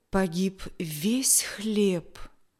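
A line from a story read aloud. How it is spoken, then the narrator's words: Father's sad tone. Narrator (Russian): печально качал головой отец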